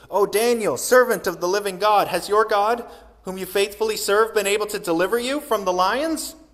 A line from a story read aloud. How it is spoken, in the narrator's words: he cried out anxiously